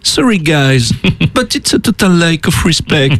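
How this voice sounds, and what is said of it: French-accented English, imitates another person. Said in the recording (French): “Je reparle anglais avec cet accent que le monde entier m'envie.”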